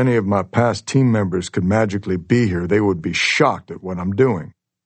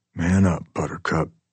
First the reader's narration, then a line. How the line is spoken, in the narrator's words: whisper